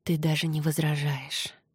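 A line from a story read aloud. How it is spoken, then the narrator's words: Whisper. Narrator (Russian): прошептал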